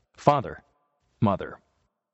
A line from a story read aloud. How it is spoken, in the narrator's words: he cried